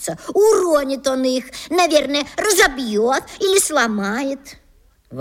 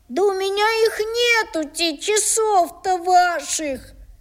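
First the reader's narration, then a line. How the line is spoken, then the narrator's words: Angry, tearful boy. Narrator (Russian): отвечал мальчик сердитым и плаксивым голосом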